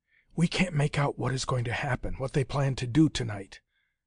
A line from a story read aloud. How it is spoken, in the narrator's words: Ivana whispered at last to Kirby